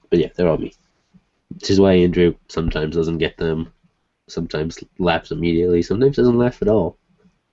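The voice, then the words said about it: Congested, nasal voice. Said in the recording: “I'm so stuffed right now. I can't breathe through my nose ... You sound a little nasalier.”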